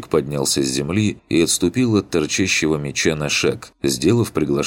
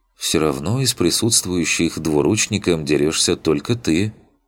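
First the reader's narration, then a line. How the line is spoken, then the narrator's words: Heavy sigh, flat statement. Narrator (Russian): Тяжело вздохнув, констатировал он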